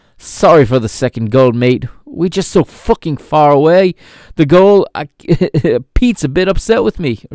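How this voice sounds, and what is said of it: Poor put-on British accent. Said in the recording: “horrible British accent”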